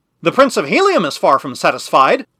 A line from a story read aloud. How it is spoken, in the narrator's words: I cried, breaking rudely in upon the beginnings of peace, for I had no stomach for peace at the price that had been named